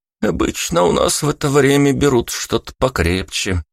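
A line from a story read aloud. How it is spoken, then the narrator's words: Snorting shopkeeper. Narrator (Russian): хмыкнул продавец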